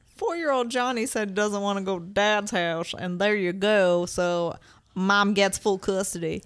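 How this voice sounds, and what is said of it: Character voice with southern accent. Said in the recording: “Why does the guardian ad litem have a southern accent? ... Why is the guardian ad litem from Apopka?”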